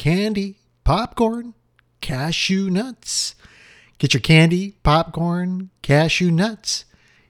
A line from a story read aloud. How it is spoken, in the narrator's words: A vendor came swinging slowly along the aisle crying